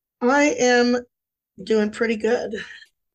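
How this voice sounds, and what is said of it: Slightly hoarse, fading voice. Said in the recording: “Losing my voice just a little bit”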